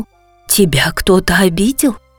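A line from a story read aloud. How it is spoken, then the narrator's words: Worried mother asking. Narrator (Russian): взволнованно спросила мама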